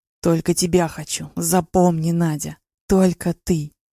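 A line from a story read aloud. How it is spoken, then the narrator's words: Hoarse whisper. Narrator (Russian): шептал в затылок севшим голосом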